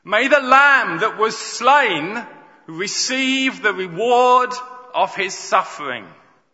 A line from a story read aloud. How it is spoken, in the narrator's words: they shouted across the spreading gap